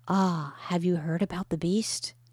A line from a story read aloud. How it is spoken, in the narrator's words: when people talked about computers, they would whisper